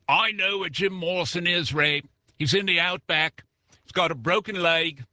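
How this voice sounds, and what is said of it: Put-on Australian accent. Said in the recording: “I get a letter from Australia. ... You could just imagine the accent.”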